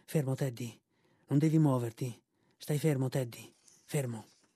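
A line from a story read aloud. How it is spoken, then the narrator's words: Faint whisper. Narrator (Italian): suo padre, il quale poté solo sussurrare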